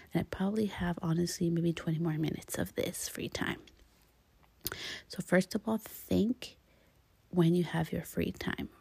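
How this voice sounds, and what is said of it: Whispering softly. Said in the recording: “if I sound like I'm whispering a little bit”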